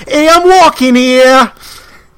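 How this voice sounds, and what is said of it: Put-on New York accent. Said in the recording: “My go-to is a New Yorker walking across the street.”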